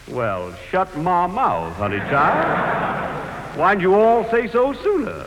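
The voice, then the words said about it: Exaggerated put-on Southern accent. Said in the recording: “one of those charming southern accents ... Like a minstrel show”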